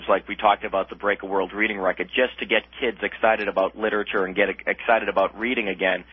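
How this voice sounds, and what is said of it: Boston accent. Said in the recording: “as you can tell from my Boston accent”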